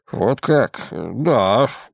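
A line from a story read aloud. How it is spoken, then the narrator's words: Muttering. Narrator (Russian): пробормотал он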